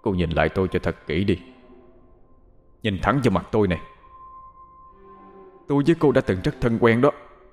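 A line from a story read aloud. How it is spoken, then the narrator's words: Furious man's gritted voice. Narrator (Vietnamese): Người đàn ông đó tự nhiên đùng đùng nổi giận, gằn giọng nói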